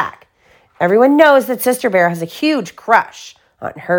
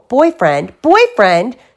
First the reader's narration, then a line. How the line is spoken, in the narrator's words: shouted Sister